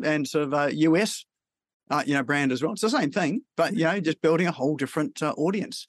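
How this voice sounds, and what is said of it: Australian accent. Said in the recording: “people over there love the Aussie accent.”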